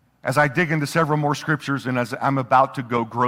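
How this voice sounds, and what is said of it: Usual voice. Nothing is said of it.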